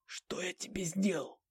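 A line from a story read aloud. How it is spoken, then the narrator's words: Wheezing. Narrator (Russian): прихрипел Бленский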